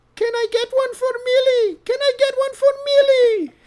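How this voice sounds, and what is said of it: Old German-accented woman's voice. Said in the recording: “try this voice ... old, like, German lady, I think. German, yep. Austrian.”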